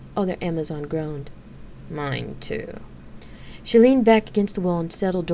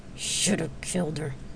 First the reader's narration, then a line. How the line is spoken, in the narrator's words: Pony muttered under her breath